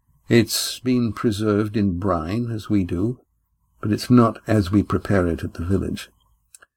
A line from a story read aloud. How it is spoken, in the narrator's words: Astraea answered evenly